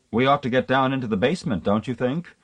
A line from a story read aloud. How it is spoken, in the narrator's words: Miss Lalage said in a reasonable tone, though she was shivering hard